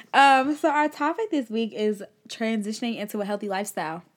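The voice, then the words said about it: Slight country twang. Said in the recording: “That was real country... some words that sneak in there that have a little twang”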